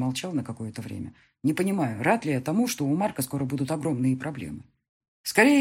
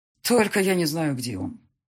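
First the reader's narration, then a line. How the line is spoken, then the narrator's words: Sighing. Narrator (Russian): вздохнул я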